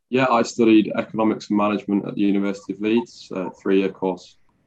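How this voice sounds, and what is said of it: Yorkshire accent. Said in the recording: “the Yorkshire accent”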